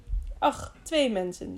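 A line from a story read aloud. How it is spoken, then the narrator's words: Plain. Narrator (Dutch): zei hij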